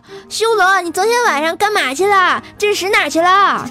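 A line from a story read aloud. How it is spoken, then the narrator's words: Loud shout. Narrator (Chinese): 跟他同宿舍的体育委员就在那儿大喊道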